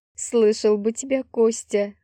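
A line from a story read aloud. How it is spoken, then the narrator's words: Short laugh. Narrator (Russian): хохотнула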